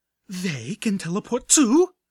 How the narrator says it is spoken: Velvet Remedy blurted, finally reaching the same level of hateful disbelief

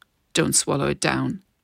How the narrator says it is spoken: growled

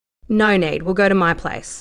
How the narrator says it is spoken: Price said firmly

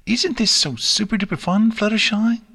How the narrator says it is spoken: chirped as he bounced along

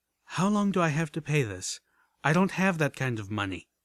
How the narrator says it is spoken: With a sigh, I asked

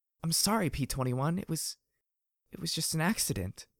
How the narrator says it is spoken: muttered

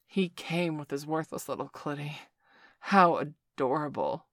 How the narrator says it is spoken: Victor groaned, his own cock swelling with excitement as he felt his orgasm mounting

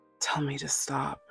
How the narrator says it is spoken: whispers, voice fraying at the edges

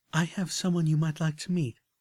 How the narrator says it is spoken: Velvet continued, her voice warm and accepting

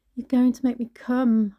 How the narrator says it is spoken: shouted

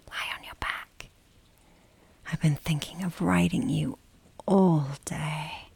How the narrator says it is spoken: I whisper

